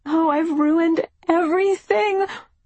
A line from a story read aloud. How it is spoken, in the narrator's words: wail